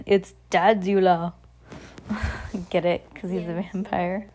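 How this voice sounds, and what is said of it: Put-on Romanian accent. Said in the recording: “in a Romanian accent”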